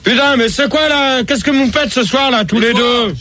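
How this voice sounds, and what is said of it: Shouting. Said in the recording (French): “tu cries”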